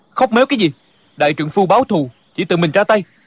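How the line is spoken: Angry. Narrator (Vietnamese): Địch dân tức giận nói

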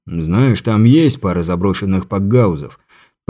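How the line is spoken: Muttering. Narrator (Russian): пробормотал

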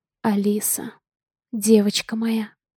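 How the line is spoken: Whisper. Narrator (Russian): прошептала Дейна

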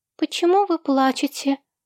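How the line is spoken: Squeaky ringing little voice. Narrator (Russian): Писклявым звенящим голоском спросила Изабель

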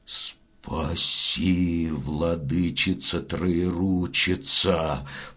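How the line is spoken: Stammering old man's mutter. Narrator (Russian): пробормотал, запинаясь, дед

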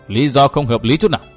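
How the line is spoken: Cold laughter, two old men. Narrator (Vietnamese): Lão Gù và lão Lùn cũng cười nhạt

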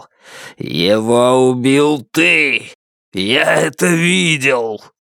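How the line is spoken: Growling. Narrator (Russian): Джанэй прорычал

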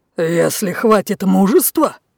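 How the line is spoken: Growling. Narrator (Russian): зарычал Лев

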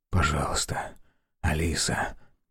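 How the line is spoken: Trembling whisper. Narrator (Russian): прошептал он, слыша, как дрожит его голос

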